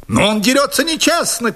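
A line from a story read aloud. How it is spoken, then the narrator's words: Shouted. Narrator (Russian): крикнул мой противник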